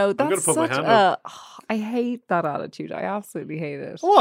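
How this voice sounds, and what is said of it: Usual voice. Nothing is said of it.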